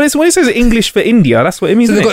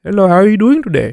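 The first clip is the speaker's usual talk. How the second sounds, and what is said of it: Put-on Indian English accent. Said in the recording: “an English person with an Indian accent.”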